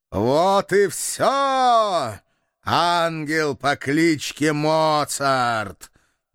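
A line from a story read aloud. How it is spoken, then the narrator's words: Demonic laughter. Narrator (Russian): демонически захохотал глава клана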